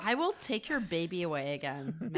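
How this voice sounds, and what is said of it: Put-on Irish accent. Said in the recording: “Could you do an Irish accent? ... That's what Irish sounds like. The ability... to enunciate.”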